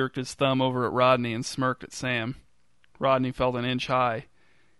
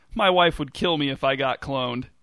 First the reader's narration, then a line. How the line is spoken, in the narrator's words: laughed